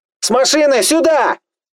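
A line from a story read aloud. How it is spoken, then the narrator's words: Yelled. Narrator (Russian): Заорал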